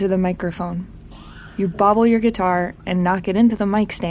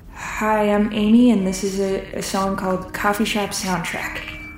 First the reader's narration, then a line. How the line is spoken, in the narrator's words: You mumble